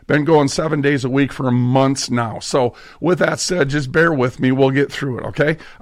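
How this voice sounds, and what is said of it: Hoarse, strained voice. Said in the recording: “I'm just losing my voice here a little bit”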